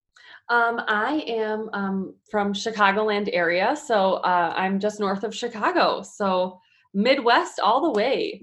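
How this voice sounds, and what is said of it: Slight Chicago Midwest accent. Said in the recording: “I love your little accent too ... from a south suburb of Chicago”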